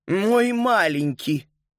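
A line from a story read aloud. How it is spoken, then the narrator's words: Sighing. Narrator (Russian): Макс вздохнул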